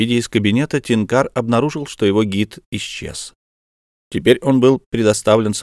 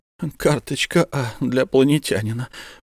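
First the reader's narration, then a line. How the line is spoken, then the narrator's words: Muttered under breath. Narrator (Russian): пробормотал себе под нос секретарь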